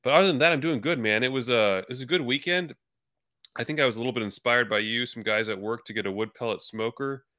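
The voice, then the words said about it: Nasal voice with a cold. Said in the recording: “I have a little bit of a cold ... Those guys sound nasally, sickly all the time”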